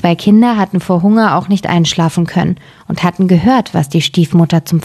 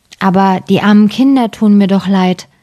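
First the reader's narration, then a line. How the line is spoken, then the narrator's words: Plain, man. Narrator (German): sagte der Mann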